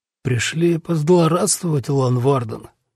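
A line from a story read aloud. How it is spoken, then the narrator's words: Weak question. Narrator (Russian): слабым голосом спросил тысячник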